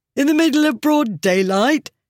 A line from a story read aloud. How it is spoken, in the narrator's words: Someone laughed